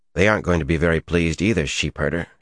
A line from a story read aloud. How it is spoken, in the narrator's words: she said dryly